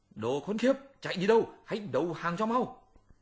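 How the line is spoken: Angry shouting. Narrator (Vietnamese): Hành giả quát tháo

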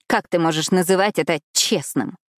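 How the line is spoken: Panicked snap. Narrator (Russian): Огрызнулась в состоянии паники

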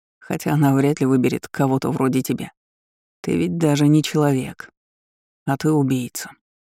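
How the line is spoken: Calm reply. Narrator (Russian): спокойно ответил ему Кайрин

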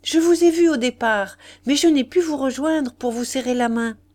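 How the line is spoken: Man exclaiming. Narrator (French): s'écria-t-il

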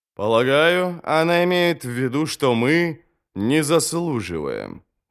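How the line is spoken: Plain. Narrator (Russian): сказал Горм

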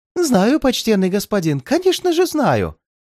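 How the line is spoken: Babbling. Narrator (Russian): залепетал грубиян

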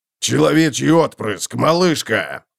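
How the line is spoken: Barking. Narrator (Russian): рявкнул Готрек

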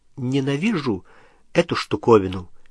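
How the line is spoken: Quiet. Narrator (Russian): тихо сказала она

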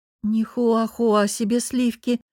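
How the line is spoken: Sulky mumble. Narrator (Russian): мявкнула я и, надув губы, пробурчала

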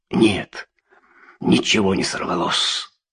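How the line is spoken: Muffled whisper. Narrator (Russian): Он заговорил приглушенным шепотом

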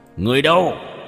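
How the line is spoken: Piercing shout. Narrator (Vietnamese): nam tử quát lên một tiếng chói tai

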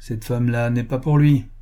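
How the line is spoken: Growled. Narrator (French): grogna quelqu'un

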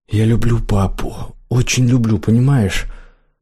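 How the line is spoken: Agitated whisper. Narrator (Russian): взволнованно прошептала

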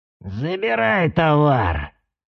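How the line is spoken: Creaky voice. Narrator (Russian): проскрипел Аяй

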